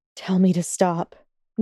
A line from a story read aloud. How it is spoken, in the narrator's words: Draco mumbled against her skin, barely audible